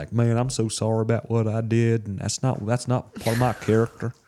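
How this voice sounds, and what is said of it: Put-on Southern accent. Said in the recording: “I know he doesn't even have a southern accent, but that's just how I see him ... John Henry's just like a good old southern boy”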